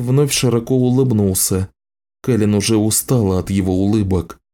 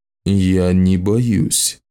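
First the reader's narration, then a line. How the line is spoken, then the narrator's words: Muffled, menacing. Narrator (Russian): ответил глухо и грозно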